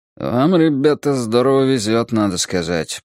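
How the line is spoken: Grumbling. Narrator (Russian): проворчал Марвин Сеймор

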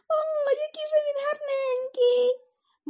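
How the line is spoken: Shouting. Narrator (Ukrainian): закричала

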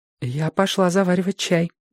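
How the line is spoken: Flustered whisper. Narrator (Russian): в смятении прошептала Робин

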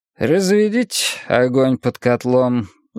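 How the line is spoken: Sighing command. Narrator (Russian): вздохнув, приказал царь Джоу

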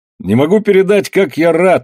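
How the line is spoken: Exclaiming. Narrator (Russian): воскликнул Андре

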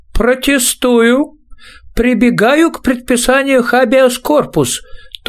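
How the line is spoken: Thin high voice. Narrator (Russian): тонким голосом произнес кто-то

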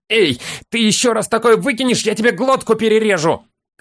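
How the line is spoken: Bloodthirsty bark into ear. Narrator (Russian): Кровожадно рявкнул хоббит в мохнатое ухо лежавшего

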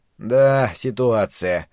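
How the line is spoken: Gloomy drawl. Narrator (Russian): протянул Макс, уныло глядя

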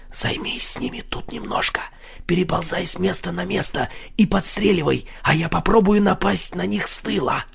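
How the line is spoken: Whispered in ear. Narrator (Russian): Марсель прошептал ему на ухо

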